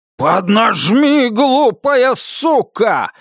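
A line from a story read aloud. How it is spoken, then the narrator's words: Yelling. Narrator (Russian): заорал Китон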